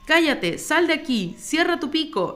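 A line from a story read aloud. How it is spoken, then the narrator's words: Furious shout. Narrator (Spanish): le gritó Nostex, enfurecido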